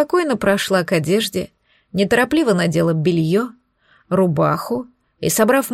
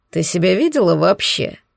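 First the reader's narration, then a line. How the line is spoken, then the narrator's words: Dog snorting. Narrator (Russian): хмыкнул пес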